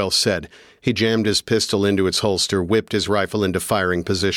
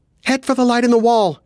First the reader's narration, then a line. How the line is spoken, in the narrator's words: she said, her voice more a desperate scream than a command